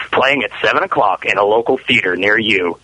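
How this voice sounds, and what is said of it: Movie phone announcer voice. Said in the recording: “You know what you do sound like? The movie phone guy. ... Sounds like the movie.”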